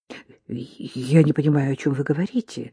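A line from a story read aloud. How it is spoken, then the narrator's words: Muttered. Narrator (Russian): пробормотал Гарри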